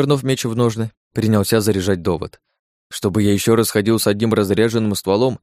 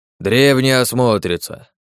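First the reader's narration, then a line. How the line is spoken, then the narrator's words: Guilty grumbling bird. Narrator (Russian): Виновато проворчал птиц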